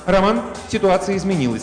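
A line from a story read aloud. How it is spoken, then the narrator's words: Plain. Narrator (Russian): сказала она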